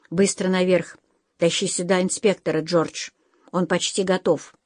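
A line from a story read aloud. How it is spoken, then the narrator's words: Quiet command. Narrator (Russian): тихо приказал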